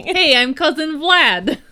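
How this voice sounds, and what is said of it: Put-on Dracula accent. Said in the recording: “Dracula accents ... what does Dracula sound like? ... like this ... That's amazing”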